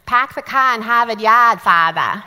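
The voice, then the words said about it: Strong Boston accent. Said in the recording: “Their accents, their Boston accents, were so wicked strong ... they talked so fast, and they added R's to words ... that beautiful accent”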